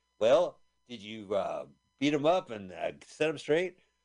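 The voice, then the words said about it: Imitates another person's voice. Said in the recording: “What is my impression of King Carol?”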